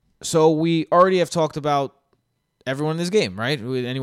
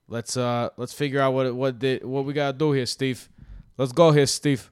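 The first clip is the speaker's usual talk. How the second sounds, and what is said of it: Put-on Brooklyn accent. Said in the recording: “I went from an English accent to a Brooklyn accent, just in the snap, just like that.”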